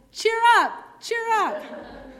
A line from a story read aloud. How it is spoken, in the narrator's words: they shouted